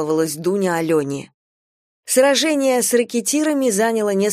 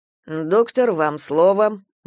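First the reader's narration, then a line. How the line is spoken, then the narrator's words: Grumbling. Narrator (Russian): буркнул Галя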